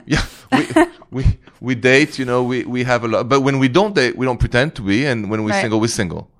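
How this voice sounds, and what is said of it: Foreign accent. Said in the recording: “accent ... gets you”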